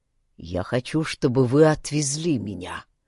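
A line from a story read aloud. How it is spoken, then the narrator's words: Low voice. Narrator (Russian): произнес он низким голосом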